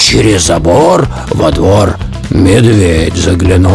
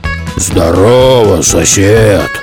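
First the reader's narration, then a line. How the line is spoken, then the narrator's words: Deep bass. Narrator (Russian): пробасил он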